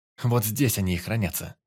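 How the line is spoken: Solemn announcement. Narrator (Russian): Торжественно произнес Торопов

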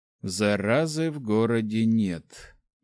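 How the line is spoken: Gloomy. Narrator (Russian): мрачно произнес Калафи

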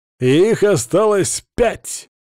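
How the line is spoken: Loud announcement. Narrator (Russian): Громко оповестил

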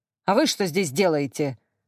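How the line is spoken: Snapping. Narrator (Russian): огрызнулся Анатолий Григорьевич

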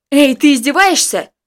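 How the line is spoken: Shout. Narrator (Russian): крикнул я

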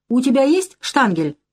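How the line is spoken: Shout. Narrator (Russian): крикнул я

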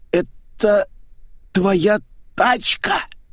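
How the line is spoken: Hoarse question. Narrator (Russian): хриплым голосом поинтересовался Митяев

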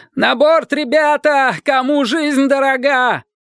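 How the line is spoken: Cowardly panicked shout. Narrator (Russian): кто-то с подлинным вдохновением труса крикнул

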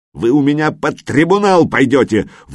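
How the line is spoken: Furious yelling. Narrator (Russian): в бешенстве заорал комиссар

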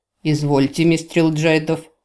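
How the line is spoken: Grumbling. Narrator (Russian): проворчал Бласид

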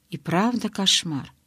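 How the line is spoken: Whispering. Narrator (Russian): прошептала я

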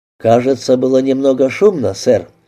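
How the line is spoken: Plain. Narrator (Russian): спросил он

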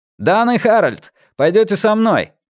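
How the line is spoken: Firm shout, no fear. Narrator (Russian): прокричал Голдсрут, и Морган больше не слышал изумления, ужаса или боязни ответственности в его голосе

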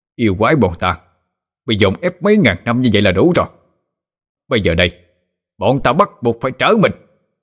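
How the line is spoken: Furious demonic roar. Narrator (Vietnamese): bọn đại yêu cũng không nhịn nữa mà bộc phát yêu khí cho gào lên

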